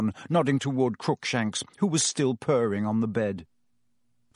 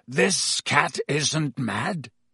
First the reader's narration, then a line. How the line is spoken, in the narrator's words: said Black hoarsely